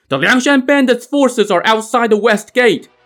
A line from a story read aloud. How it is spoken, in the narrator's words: they could hear someone shouting